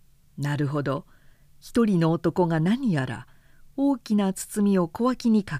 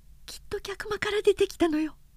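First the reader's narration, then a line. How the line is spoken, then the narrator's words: Whispered. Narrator (Japanese): とシュザンヌがささやいた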